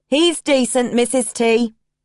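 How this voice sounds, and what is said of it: Broad New Zealand accent. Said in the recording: “A broad New Zealand accent.”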